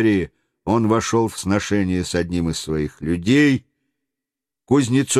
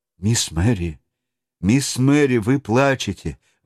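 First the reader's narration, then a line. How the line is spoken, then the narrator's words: Exclamation. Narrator (Russian): воскликнул он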